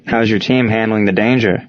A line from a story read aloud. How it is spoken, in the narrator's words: Darren asked